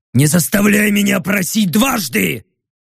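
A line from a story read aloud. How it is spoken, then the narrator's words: Growl, orc. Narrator (Russian): прорычал орк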